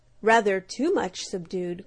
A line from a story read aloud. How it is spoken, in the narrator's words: growled the blundering black beetle